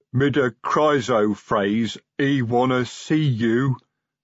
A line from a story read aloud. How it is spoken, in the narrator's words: said Carved Arm sulkily